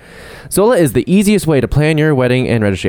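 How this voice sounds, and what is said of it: Exaggerated radio announcer voice. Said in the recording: “I'm gonna do all the ads in my radio hetero voice.”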